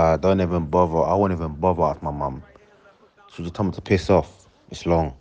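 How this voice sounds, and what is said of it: Usual voice. Nothing is said of it.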